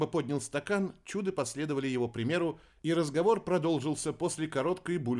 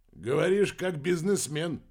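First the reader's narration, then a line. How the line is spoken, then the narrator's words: Snorting grunt. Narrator (Russian): хмыкнул Венсен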